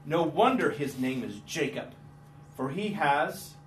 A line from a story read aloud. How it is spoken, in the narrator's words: Esau said bitterly